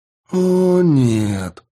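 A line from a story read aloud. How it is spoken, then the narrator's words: Drawn out. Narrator (Russian): протянула Тесс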